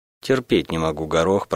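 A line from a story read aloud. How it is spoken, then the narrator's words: Grumbling. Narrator (Russian): проворчала я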